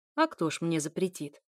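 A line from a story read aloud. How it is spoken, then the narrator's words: Woman scoffing. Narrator (Russian): хмыкнула женщина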